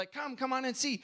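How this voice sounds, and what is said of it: Put-on broken English accent. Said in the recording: “in a broken English accent”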